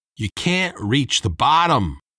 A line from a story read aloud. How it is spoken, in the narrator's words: Mike shouted